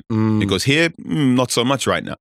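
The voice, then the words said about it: Fake Pep Guardiola accent. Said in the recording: “I'm doing the fake Pep accent. ... why am I sounding like Pep?”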